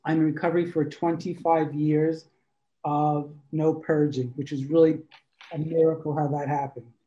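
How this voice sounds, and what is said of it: New York accent. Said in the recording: “Originally, I'm from New York. You might hear it in my voice.”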